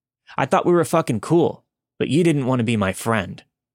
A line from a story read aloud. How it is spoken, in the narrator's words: He yelled again